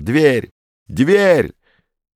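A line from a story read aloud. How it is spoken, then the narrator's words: Shouting. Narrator (Russian): Комов уже кричал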